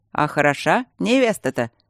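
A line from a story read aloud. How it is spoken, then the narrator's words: Loud mocking yell. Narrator (Russian): насмешливо и громко проорал один из берманов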